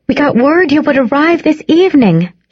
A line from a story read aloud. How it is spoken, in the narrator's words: cried